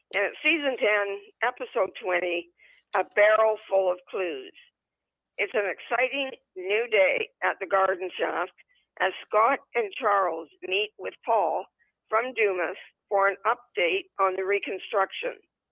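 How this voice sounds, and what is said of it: Hoarse voice. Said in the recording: “I am still a little hoarse”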